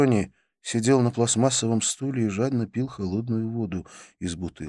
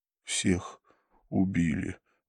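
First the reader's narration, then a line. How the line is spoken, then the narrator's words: Breathless exhale. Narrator (Russian): выдохнул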